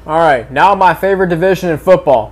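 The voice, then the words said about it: Sarcastic delivery. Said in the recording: “That was sarcastic. ... and that's sarcastic.”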